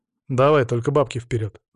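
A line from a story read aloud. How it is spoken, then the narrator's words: Plain. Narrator (Russian): сказал я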